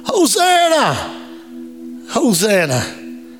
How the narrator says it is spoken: there was people shouting

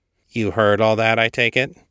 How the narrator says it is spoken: Kate asked, dryly

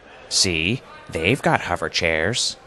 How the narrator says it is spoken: grumbled Arthur

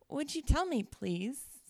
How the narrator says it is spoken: said Alice, a little timidly

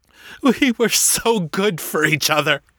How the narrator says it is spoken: he said, his voice thick with tears

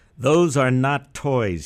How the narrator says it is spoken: he growled

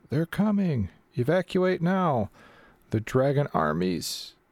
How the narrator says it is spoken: a mercenary of the Ironclad Regiment, she's yelling

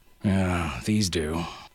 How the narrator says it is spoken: Harasthi grunted

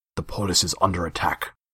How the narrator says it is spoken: said Hyksos

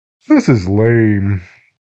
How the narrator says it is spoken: he said with a yawn

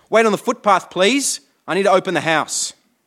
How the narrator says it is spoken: he snapped

